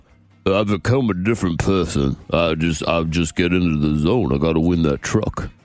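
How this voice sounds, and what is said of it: Bad Sylvester Stallone impression. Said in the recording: “a very, very bad impression of Sylvester Stallone ... it is terrible”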